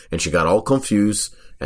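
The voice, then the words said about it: Put-on French accent. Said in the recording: “the French accent”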